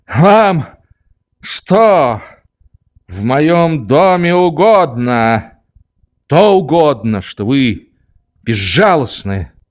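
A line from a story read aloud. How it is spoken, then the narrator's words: Shouting. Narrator (Russian): кричал я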